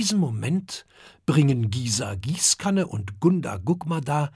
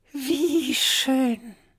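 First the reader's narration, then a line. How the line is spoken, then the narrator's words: Old turtle sighing. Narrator (German): seufzt die alte Schildkröte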